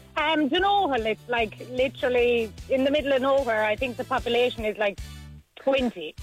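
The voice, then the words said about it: Irish Tipperary accent with Cork twang. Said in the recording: “where are you from with that twang? ... my twang is very bad, but I'm actually from Tipperary. ... I'm a bit of Cork thrown in there. ... The tip twang is very, very obvious”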